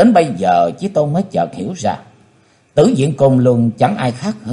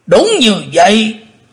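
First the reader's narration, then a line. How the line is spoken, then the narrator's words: Thunderous roar. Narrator (Vietnamese): Tử Diện Côn Luân đáp như trời gầm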